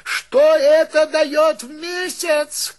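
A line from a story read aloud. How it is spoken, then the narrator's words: Shouted after someone. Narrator (Russian): крикнул Филюрин вдогонку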